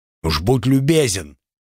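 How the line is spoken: Grumbling. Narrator (Russian): проворчал хозяин кладбища

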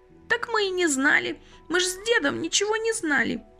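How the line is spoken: Sobbing old woman. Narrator (Russian): всхлипнула старушка

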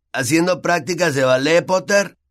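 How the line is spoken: Shouting. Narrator (Spanish): le gritó Malfoy

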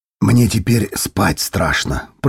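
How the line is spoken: Mutter. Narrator (Russian): пробормотал Коггил

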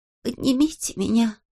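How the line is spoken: Whisper. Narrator (Russian): прошептал он

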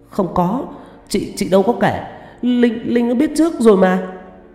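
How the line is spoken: Frightened stammering. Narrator (Vietnamese): Tâm mím môi mặt tái mét, lắp bắp

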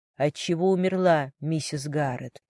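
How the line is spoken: Gentle question. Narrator (Russian): мягко спросил Джон

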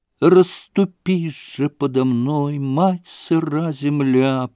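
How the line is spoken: Moaning. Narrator (Russian): простонала она

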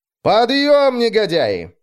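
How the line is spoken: Cheerful shout. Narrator (Russian): весело прокричал

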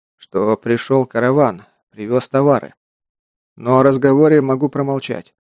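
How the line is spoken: Hoarse voice. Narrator (Russian): осевшим голосом произнес Тиманта

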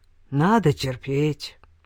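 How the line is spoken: Gloomy mutter. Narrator (Russian): мрачно буркнул Скуманд

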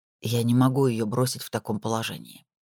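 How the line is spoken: Quiet. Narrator (Russian): тихо произнес он

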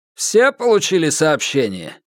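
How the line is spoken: Decanter's loud question. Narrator (Russian): громко спросил графин

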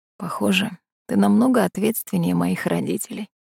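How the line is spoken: Barely audible whisper. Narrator (Russian): прошептал он еле слышно

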